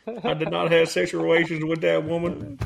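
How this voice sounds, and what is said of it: Arkansas accent impression. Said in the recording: “Is that Arkansas accent? Him.”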